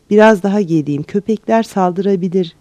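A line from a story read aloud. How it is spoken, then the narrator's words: Plain male voice. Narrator (Turkish): dedi erkek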